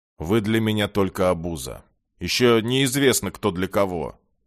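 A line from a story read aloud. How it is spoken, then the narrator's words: Grumbling. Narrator (Russian): проворчал Джай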